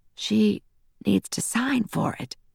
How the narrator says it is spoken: whispered

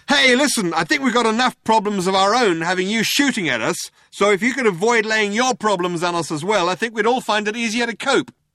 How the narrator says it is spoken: Ford shouted out

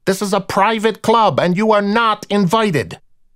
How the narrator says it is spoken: he yelled again, just for the effect

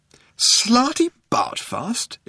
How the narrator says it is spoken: exclaimed Arthur

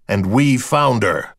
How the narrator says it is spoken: Matthews told the crowd in a manly growl

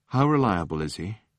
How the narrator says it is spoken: asked Fenchurch in a sinking voice

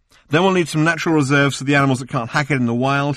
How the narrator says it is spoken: he said

